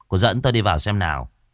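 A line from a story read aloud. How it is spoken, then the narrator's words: Irritated. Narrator (Vietnamese): Cậu bực bội nói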